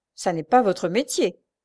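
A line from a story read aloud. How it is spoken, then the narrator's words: Sneering. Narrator (French): ricana le second agent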